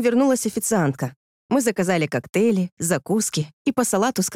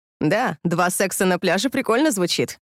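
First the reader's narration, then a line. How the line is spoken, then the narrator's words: Laughing loudly. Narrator (Russian): расхохоталась она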